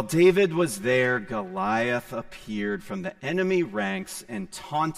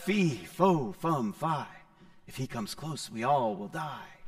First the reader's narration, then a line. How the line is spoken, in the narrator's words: soldiers whispered under their breath